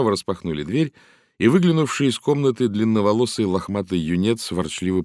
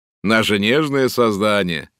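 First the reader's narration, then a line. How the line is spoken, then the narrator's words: Mocking exclamation. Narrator (Russian): насмешливо воскликнул Лен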